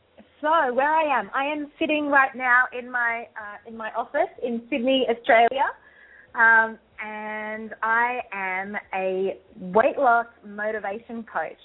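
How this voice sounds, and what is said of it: Australian accent. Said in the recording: “that beautiful accent ... my Australian accent”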